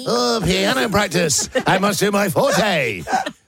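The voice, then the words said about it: Nerdy posh student voice. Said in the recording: “does a great impression of a nerd”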